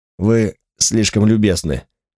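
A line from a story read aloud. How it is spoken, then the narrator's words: Muttered. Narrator (Russian): пробормотал Секи Осаму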